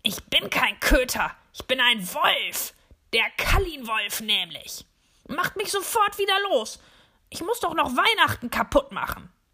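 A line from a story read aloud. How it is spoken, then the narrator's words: Growled. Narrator (German): Böse knurre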